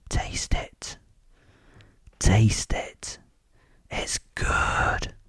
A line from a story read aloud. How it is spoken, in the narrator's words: whispered